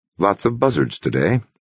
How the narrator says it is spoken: he said quietly

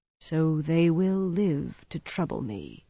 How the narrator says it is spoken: he murmured

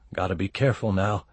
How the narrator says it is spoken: he muttered

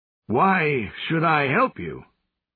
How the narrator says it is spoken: Colt's breath sighed like a punctured balloon

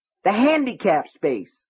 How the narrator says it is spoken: Norris shouted

